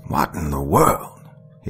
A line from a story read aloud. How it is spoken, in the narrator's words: asked on the third try, grunting hard